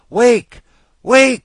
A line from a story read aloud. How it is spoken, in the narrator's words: wailed